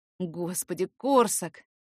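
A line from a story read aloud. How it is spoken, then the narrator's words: Breathed out. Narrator (Russian): выдохнул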